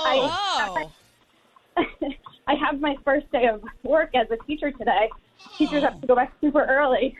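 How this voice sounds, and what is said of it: Out of breath while speaking. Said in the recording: “I'm running right now, so I promise that's why I'm out of breath.”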